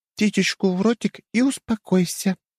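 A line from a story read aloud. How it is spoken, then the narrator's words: Gentle soothing voice. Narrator (Russian): ласковым голосом произнесла женщина, продолжая успокаивать вспыльчивого мужа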